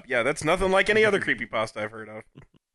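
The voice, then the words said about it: Sarcastic delivery. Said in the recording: “That was sarcastic, wasn't it? Yeah. ... It was a sarcastic aquarium.”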